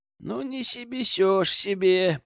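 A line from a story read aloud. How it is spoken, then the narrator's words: Sudden drawl. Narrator (Russian): протянул вдруг Иван Воронин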